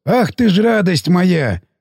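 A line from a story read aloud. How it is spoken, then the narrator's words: Pleased, grinning. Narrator (Russian): расплылся в довольном оскале Сиплый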